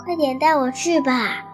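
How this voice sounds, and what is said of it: Soft whispered voice. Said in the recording (Chinese): “改成悄悄话的声音，小声的说”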